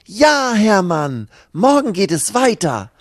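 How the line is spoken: Called out. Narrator (German): ruft Lucy

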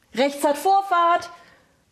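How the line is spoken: Roar. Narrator (German): brüllte er

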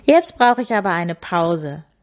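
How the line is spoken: Laughing. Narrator (German): lachte sie

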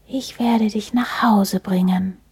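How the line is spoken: Whisper. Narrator (German): schien es zu flüstern

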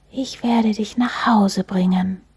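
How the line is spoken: Whispering. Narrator (German): schien es zu flüstern

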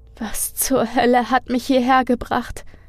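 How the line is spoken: Whimpering to herself. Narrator (German): fragte sich wimmernd selbst

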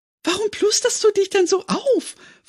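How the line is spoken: Giggling question. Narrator (German): fragte kichernd

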